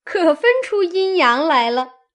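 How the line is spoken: Laughing. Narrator (Chinese): 翠缕笑道

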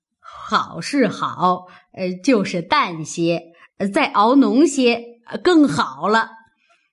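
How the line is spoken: Old woman laughing. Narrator (Chinese): 刘姥姥笑道

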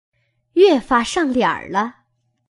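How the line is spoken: Laughing. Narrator (Chinese): 麝月笑道

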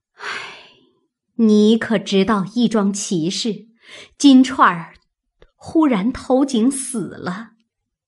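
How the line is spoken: Sighing. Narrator (Chinese): 王夫人点头叹道

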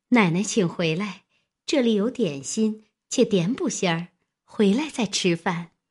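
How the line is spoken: Hasty, smiling. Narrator (Chinese): 平儿忙笑道

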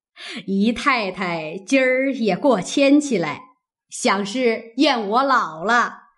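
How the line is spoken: Laughing. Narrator (Chinese): 贾母笑道

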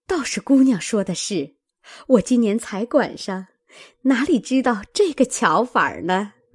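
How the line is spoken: Old woman laughing. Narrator (Chinese): 婆子笑道

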